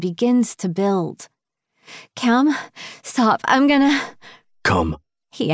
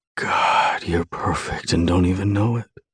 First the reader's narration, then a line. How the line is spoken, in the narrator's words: he whispers